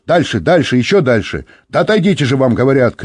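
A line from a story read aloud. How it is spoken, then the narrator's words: Shouted. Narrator (Russian): крикнул он Юре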